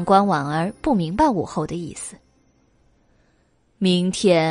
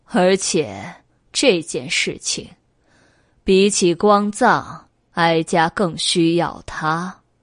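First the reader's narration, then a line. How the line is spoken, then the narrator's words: Cold sneer. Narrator (Chinese): 武后神色莫测，冷笑道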